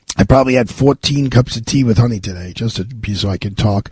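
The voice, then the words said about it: Raspy, hoarse voice. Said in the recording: “I have like kind of like have a chronic raspy voice ... You do have a more raspy voice again today ... What's going on with your raspy today?”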